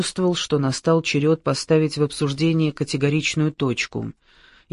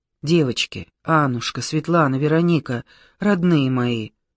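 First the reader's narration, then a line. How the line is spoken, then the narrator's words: Anguished sigh. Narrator (Russian): Таня мучительно вздохнула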